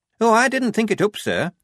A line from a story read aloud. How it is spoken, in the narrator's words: said Shufti brightly